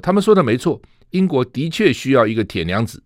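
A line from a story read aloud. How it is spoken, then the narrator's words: Smiling, pleased. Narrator (Chinese): 他立刻笑纳说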